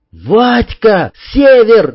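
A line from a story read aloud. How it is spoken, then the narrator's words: Shout. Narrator (Russian): закричал Сергей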